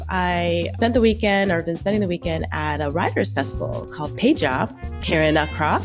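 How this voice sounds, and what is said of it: Stuffy, slightly congested voice. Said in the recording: “you can hear it in my voice. I have a little bit of a cold”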